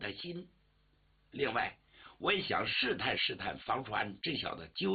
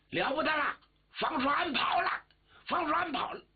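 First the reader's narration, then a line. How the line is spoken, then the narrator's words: Shout from outside. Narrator (Chinese): 外头有人喊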